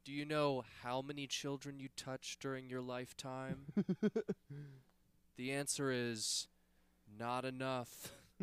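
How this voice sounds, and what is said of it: Slow, creepy, smooth-talking voice. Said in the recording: “talks slow and like kind of creepy ... smooth talker ... That's my Anthony Jeselnik impression. ... That's pretty good.”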